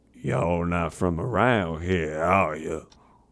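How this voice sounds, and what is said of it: Put-on classic Southern accent. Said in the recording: “classic southern accent”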